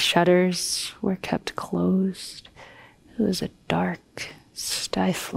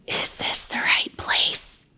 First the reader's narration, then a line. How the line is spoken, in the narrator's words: Mary whispered